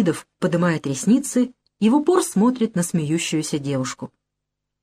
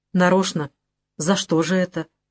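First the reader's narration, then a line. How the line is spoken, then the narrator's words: Quiet question. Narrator (Russian): тихонько спрашивает он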